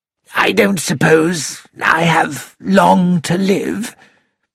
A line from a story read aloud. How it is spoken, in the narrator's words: said Timothy in a weak voice